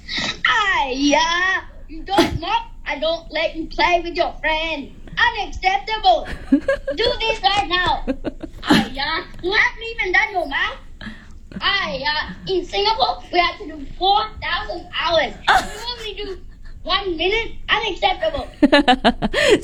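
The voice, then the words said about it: Imperfect put-on Singaporean accent. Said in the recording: “does a pretty good impersonation of his mom, despite having a pretty strong Aussie accent ... his Singaporean accent needs work”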